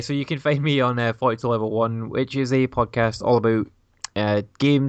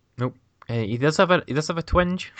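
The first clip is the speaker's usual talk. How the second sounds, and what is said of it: Attempted American accent. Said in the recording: “my best American accent”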